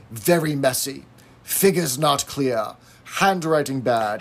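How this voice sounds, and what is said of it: Clipped stereotypical teacher voice. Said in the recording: “little bit like a teacher, speaking very clipped, stereotypical ways that a teacher would say”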